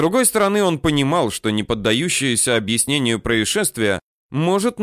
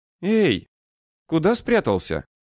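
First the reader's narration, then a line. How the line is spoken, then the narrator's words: Gentle question. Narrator (Russian): ласково спросила она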